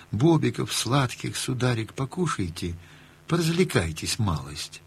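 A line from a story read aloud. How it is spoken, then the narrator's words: Tender singsong. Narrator (Russian): Сказала ласково, пропела словно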